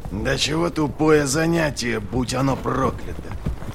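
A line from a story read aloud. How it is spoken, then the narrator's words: Grimacing grumble. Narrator (Russian): проворчал Доу, кривясь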